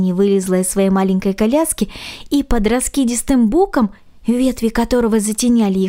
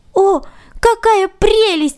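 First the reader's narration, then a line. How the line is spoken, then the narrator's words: Exclaimed. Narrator (Russian): воскликнул Ганс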